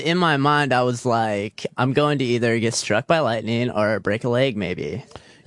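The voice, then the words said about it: Girlish put-on voice. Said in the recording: “You're doing a girl voice then? ... Yeah, I was doing a girl voice.”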